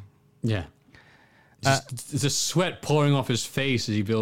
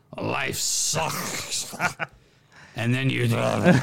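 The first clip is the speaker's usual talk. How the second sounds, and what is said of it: Vince McMahon impression, drowning. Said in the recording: “That's a great impression of Vince McMahon drowning.”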